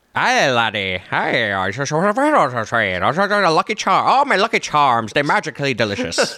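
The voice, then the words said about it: Put-on Irish accent. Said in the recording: “could you do an Irish accent? Because you are known for doing impressions on the show”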